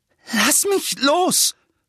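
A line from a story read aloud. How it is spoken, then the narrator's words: Panting. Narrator (German): keuchte Harry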